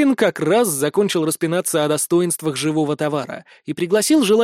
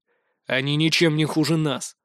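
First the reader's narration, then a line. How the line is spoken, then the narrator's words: Gloomy reply. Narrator (Russian): мрачно ответил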